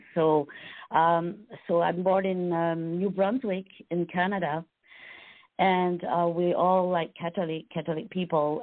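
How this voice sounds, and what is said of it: French Canadian accent. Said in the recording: “I'm born in a French community, so that's why I have an accent”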